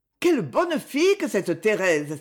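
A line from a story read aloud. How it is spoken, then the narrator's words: Exclaiming together. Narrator (French): s'écrièrent-elles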